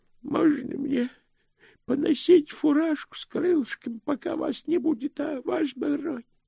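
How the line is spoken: Pleading. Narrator (Russian): взмолился Грош

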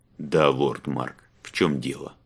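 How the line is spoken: Weary. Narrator (Russian): Устало проговорил Иллиан

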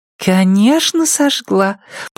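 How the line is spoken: Purring. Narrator (Russian): промурлыкала Ирен

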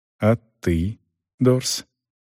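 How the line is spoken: Quiet anxious question. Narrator (Russian): тихо, взволнованно спросил Селдон

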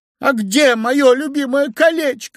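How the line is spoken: Sudden shout. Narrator (Russian): закричала вдруг царевна

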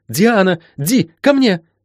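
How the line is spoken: Inner shriek. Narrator (Russian): завизжала она в собственных мыслях

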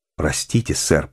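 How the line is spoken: Mumbling. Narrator (Russian): пробормотал Вейн

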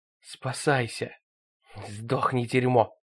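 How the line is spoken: Muttering. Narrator (Russian): пробормотала она

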